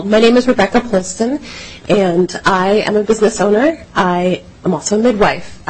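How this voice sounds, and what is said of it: Voice with a slight cold. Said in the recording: “I have a little cold.”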